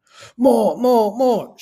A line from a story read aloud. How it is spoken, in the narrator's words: cried